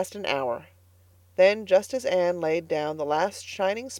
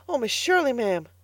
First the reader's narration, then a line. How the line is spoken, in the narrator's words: gasped Carlotta